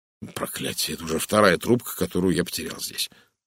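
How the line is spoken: Muttering. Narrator (Russian): пробормотал он

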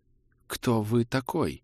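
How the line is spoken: Quiet trembling question. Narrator (Russian): спросил он тихим, дрожащим голосом

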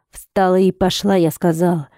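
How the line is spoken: Growled again. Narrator (Russian): Вновь рыкнул он

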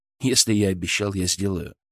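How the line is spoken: Even voice. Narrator (Russian): ровным голосом ответил

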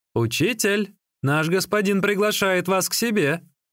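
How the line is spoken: Shouted. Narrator (Russian): Служащий крикнул

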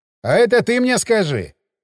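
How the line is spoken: Wry snort. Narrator (Russian): хмыкнул лымарь

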